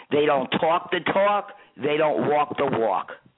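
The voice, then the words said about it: Put-on New York accent. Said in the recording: “I said that with a great New York accent”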